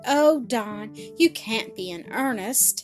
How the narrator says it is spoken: Fan exclaimed

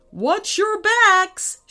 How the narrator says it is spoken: shouted Dad

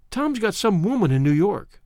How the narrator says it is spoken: she said hesitantly

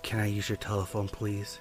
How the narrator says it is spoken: in almost a whisper goes

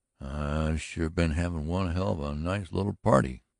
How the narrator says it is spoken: grunted Brocky Lane faintly

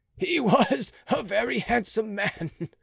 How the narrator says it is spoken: said Monsieur de Rohan, laughing

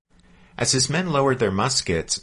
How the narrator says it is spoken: Miller called out to the strangers

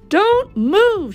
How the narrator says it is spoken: cried

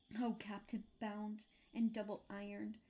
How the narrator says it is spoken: cried the fat phantom

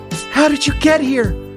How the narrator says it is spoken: I cried

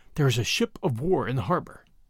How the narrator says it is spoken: Bradley answered in a whisper

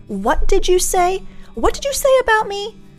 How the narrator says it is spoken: shouting

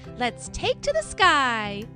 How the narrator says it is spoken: Skye exclaimed

